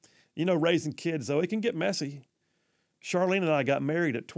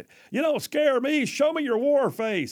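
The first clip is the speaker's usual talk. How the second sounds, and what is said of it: Imitates a film drill sergeant's voice. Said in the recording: “my best Gunny impression from Full Metal Jacket”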